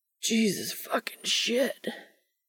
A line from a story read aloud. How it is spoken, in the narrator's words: rasps, burying his head